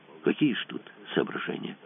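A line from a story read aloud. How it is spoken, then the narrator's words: Mumbled. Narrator (Russian): промямлил Кацуба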